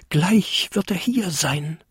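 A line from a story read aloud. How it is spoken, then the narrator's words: Excited tiny creature whispering. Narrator (German): flüsterte der kleinste Winterkobold aufgeregt vor sich hin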